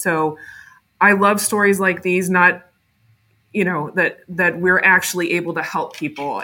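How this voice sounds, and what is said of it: Emotional, choked-up voice. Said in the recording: “I'm kind of getting choked up.”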